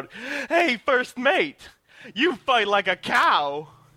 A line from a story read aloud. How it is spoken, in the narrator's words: I slyly say, shout out